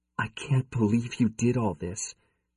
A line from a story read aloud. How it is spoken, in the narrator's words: she whispered